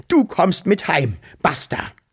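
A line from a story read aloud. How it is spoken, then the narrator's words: Calling out. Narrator (German): rief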